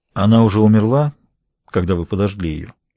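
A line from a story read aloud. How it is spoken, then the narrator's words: Calm, matter-of-fact question. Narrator (Russian): Спокойно, словно это самый естественный вопрос на свете, он спросил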